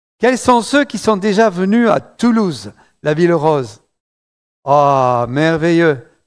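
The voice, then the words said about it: Southern French accent from Toulouse. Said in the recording (French): “un petit accent du sud, le sud de la France, Toulouse”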